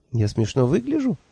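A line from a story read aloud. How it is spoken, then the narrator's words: Confused question. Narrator (Russian): растерянно спросила Хейлах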